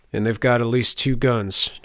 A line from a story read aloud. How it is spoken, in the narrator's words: chuckled the peasant